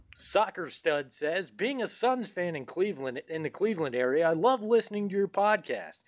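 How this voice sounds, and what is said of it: Cheesy radio announcer voice. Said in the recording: “my cheesy radio voice”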